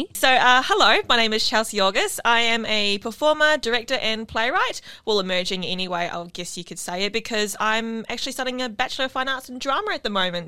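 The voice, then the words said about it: New Zealand accent. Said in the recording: “from what you can tell from my accent already, I don't know if you can pick it up, but I'm a Kiwi and I'm from New Zealand”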